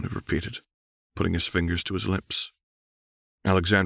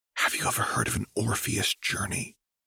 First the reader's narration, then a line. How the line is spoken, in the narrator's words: Alexandra whispered